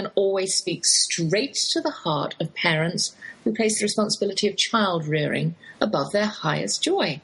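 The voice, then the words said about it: English accent. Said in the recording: “that's my English accent you're hearing, though I've lived in the Lone Star State half my life”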